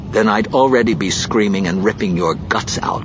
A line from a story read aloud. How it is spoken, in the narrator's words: Kindra snapped